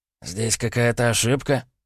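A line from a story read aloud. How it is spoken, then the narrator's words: Slightly confused question. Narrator (Russian): спросил он немного растерянно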